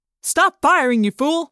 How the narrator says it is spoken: Someone shouted

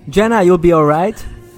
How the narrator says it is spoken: I shouted

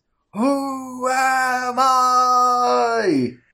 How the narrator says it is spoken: he screams

